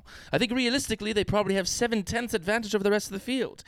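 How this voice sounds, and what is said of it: Put-on British accent. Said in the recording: “That sounds nothing like George Russell, but it is a British accent.”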